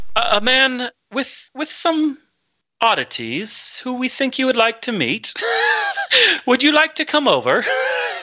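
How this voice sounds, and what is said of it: Put-on British accent. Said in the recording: “I'm trying to give my British accent, and I'm killing it.”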